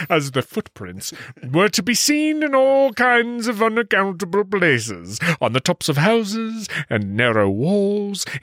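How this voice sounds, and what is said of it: Reading aloud with a distinct accent. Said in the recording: “I'm just drinking that accent, accent ... It's perfect.”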